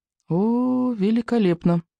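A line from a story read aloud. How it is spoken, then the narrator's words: Mumbled. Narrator (Russian): пробормотал Икинг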